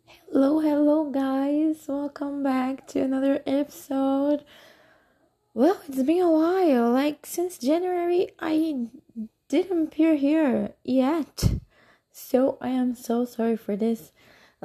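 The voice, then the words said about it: Rough, unwell-sounding voice. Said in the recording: “my voice is so horrible because last week I was sick. So my voice is getting better right now ... but my voice not that much”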